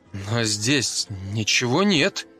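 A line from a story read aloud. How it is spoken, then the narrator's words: Uncertain. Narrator (Russian): неуверенно произнес я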